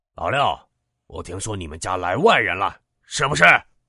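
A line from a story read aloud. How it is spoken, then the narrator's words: Loud shout from yard. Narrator (Chinese): 有人在院里高声喊道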